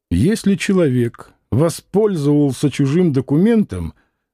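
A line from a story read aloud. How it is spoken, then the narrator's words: Dry, curt. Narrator (Russian): Клим сухо сказал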